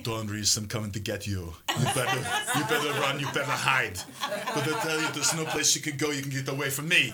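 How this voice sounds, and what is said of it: Imitates another person's voice. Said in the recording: “do your Arnold voice”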